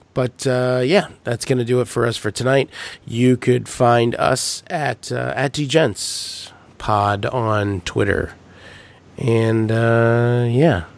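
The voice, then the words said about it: Slightly hoarse, strained voice. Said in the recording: “you can see I'm or hear I'm losing my voice a little bit”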